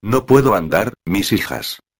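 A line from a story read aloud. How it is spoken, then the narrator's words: Sighing exclamation. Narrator (Spanish): exclamaba, suspirando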